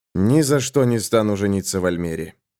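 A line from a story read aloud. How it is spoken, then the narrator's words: Grumbling. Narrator (Russian): проворчал рыцарь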